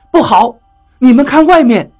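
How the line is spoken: Sudden alarmed cry. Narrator (Chinese): 何洛突然叫道

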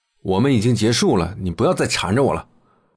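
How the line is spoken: Stern, harsh. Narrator (Chinese): 林晨厉声说

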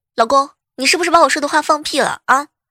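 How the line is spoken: Angry. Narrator (Chinese): 嫂子怒气冲冲地说

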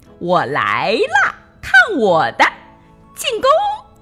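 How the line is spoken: Laughing and shrieking. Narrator (Chinese): 两个好朋友尽情的笑着、尖叫着

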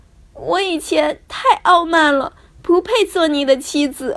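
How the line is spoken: Sobbing. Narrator (Chinese): 公主大哭着，呜咽着说

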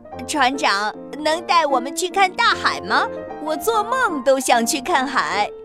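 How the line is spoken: Smiling. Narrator (Chinese): 田鼠也笑着说

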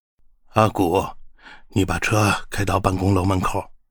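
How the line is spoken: Heavy, somber voice. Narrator (Chinese): 王董的声音很沉重

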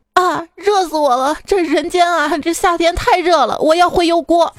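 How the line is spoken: Crying. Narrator (Chinese): 他哭着说

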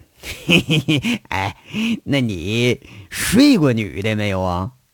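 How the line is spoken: Leering, snickering question. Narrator (Chinese): 陈大拿在这淫笑着，又问

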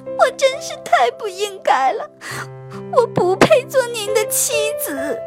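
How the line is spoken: Sobbing tearfully. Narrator (Chinese): 公主 痛哭流涕，抽泣着对国王说

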